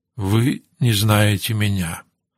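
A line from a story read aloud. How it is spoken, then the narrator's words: Quiet objection. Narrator (Russian): тихо возразил генерал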